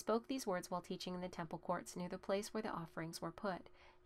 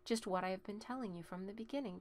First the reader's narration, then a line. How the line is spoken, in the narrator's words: Jesus replied